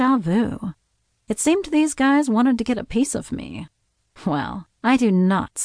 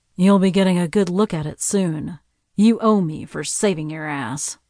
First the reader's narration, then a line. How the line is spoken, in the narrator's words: growled